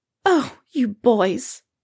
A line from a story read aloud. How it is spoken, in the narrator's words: Molly fusses tearfully